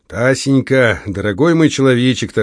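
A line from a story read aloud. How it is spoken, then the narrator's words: Solemn tone. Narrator (Russian): торжественно произнес он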